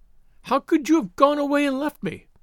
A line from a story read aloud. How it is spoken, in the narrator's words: cried, reproachfully